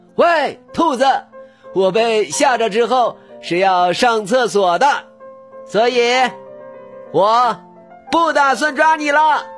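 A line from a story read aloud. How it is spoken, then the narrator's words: Loud shout. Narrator (Chinese): 狐狸大声喊道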